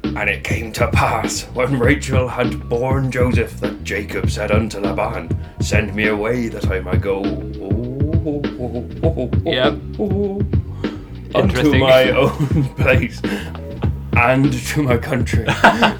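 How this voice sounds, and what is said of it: Put-on pirate-like accent. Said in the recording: “which you were doing an accent from ... when there's a pirate thing ... Swiss”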